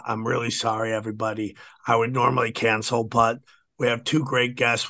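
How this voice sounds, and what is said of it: Hoarse, strained voice. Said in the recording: “my voice is shot ... my fucking throat is jacked”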